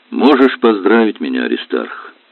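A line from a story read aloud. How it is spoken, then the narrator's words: Sad, smiling. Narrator (Russian): Грустно улыбаясь, сказала Валентина Ильинична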